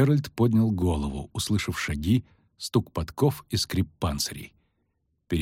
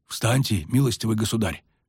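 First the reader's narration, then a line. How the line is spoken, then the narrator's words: Whispered. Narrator (Russian): шепнул Геральту один из стоявших рядом рыцарей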